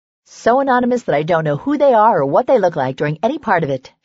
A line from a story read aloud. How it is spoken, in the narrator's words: she said cheerfully